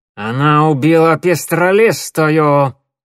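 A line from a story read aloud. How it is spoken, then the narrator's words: Through gritted teeth. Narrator (Russian): процедил сквозь зубы Долгохвост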